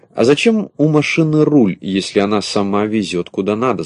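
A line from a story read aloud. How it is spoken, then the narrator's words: Plain question. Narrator (Russian): спросил Пестренький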